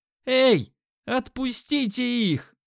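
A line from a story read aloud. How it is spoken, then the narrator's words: Yelling. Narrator (Russian): заорал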